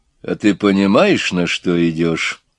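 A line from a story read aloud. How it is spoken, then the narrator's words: Quiet, serious question. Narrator (Russian): негромко и серьезно спросил начальник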